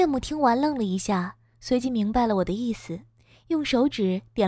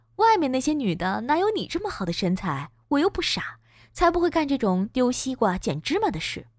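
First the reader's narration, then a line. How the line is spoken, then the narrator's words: Laughing. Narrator (Chinese): 我笑道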